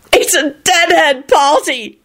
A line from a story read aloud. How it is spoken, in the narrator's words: Jamie yelled